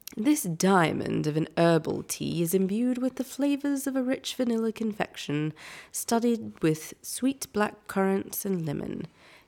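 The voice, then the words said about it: Put-on British accent. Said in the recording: “would you like me to read this in a British accent?”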